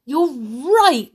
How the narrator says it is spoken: she cried

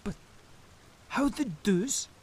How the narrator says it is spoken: He gasped

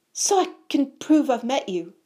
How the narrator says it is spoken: said Colin Creevy, eagerly

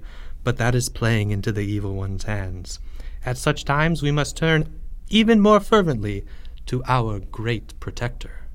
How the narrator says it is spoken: said the high priest quietly

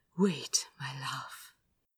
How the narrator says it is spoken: he murmured in his ear

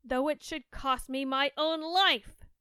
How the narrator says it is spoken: cried she

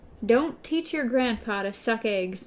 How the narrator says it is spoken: Jonas said a bit testily

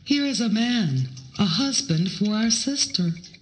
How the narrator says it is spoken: Those who were living in the crater saw him and cried out

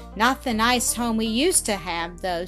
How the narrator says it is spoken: sighed Zilla

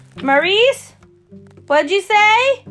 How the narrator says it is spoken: A voice outside, it must have been Eddie's, shouted back

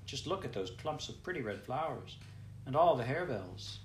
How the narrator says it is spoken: exclaimed Clara

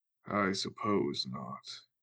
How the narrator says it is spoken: Loyal sighed

